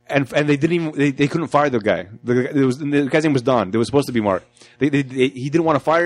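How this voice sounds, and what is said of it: Usual voice. Nothing is said of it.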